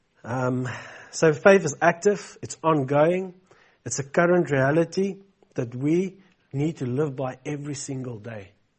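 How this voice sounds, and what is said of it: Congested, blocked-nose voice. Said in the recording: “my accent sounds funny. It's because my nose is blocked.”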